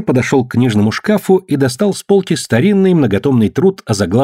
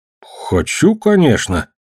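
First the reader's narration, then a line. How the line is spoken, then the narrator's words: Uncertain. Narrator (Russian): неуверенно сказал Том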